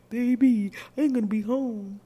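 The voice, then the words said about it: Deep voice. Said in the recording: “she got that deep voice ... he sound like this”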